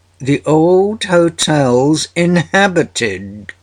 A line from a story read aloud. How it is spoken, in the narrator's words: cried a voice